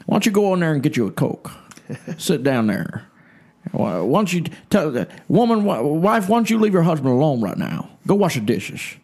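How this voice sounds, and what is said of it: Imitates another person's voice. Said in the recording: “my Ruckman impersonation”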